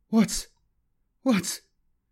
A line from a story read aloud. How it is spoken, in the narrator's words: Kaladin stuttered